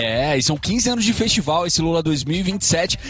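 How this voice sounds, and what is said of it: Usual voice. Nothing is said of it.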